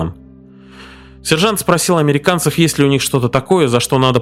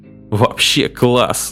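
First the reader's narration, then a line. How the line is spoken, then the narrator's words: Laughing. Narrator (Russian): засмеялся Пепе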